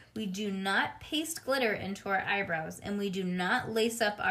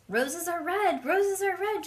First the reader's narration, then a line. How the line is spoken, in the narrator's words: called out